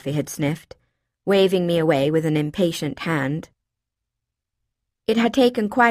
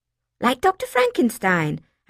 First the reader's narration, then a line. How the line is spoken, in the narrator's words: I said excitedly